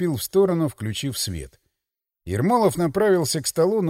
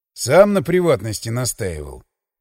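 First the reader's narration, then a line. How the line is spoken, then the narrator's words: Grumble. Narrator (Russian): проворчал я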